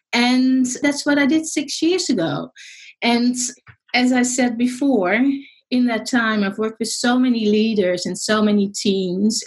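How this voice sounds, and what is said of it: Dutch accent. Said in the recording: “I'm actually Dutch. People were wondering about my accent.”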